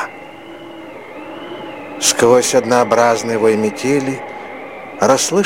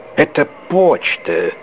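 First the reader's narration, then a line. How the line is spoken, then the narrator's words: Grumbling. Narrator (Russian): проворчал Савелий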